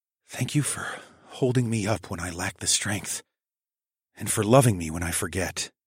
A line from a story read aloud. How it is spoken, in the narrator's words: I whispered reverently